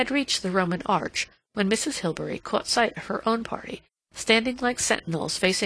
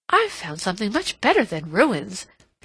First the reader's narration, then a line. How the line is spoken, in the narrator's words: she exclaimed